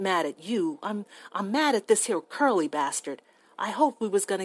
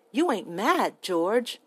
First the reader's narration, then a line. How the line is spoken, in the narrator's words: Lenny asked timidly